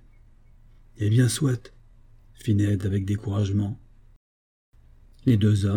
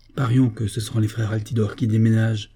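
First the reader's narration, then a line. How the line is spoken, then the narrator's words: Sudden exclamation. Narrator (French): s'écria-t-il tout à coup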